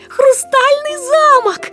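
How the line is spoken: Children shouting delightedly. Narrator (Russian): восхищенно кричали дети

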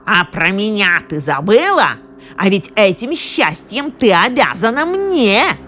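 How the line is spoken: Angry shouting, huge shrimp. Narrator (Russian): огромная креветка, злобно крича

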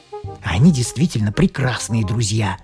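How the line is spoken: Hiss. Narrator (Russian): прошипел я жене

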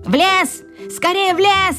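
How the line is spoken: Witch shouting. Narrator (Russian): закричала колдунья

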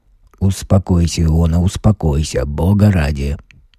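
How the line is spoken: Mumbling. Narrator (Russian): бормотал

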